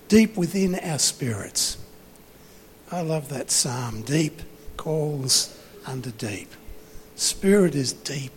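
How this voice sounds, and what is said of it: Worn-out, strained voice. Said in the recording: “my voice is gone”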